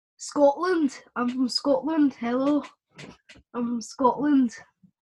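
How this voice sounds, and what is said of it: Bad put-on Scottish accent. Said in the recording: “This is not the best... This is very bad accent.”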